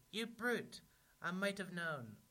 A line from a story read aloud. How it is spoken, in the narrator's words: Pig cried